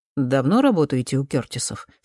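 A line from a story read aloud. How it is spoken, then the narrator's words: Plain. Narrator (Russian): спросил Дэвис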